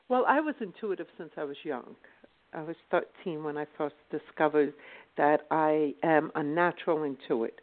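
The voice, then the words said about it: Slight British-sounding accent. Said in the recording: “I'm hearing an accent that says you're coming from somewhere in the UK ... you've got this bit of a UK sound in your voice”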